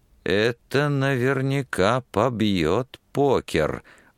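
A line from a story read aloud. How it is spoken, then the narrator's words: Joyful whisper to himself. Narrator (Russian): радостно шептал про себя Пламенный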